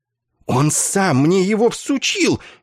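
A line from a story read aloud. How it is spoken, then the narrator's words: Furious hiss, like frightened cat. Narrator (Russian): яростно, как испуганный кот, прошипел капеллан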